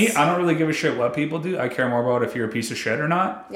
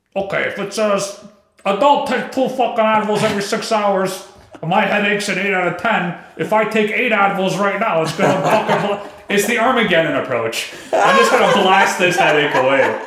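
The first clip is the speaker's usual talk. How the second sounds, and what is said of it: Imitates another person's voice. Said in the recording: “your impression of your dad ... How he talks.”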